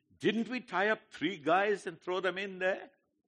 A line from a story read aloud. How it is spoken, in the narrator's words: Nebuchadnezzar in amazement exclaimed to his advisors